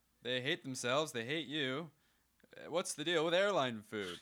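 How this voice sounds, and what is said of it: Imitates a sitcom character's voice. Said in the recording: “My George Costanza impression... That's George Costanza.”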